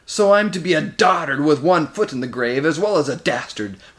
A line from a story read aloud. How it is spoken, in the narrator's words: roared Moraz